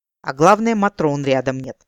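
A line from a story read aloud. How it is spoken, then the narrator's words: Snort. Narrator (Russian): фыркнул Рамбо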